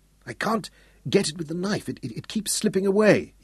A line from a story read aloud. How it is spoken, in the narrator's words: he whispered